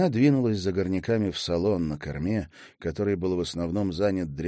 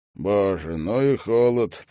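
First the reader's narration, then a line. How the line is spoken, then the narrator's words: Grumbling. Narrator (Russian): проворчал Гвин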